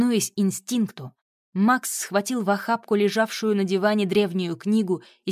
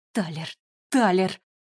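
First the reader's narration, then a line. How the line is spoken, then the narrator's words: Pleading. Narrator (Russian): взмолился Макс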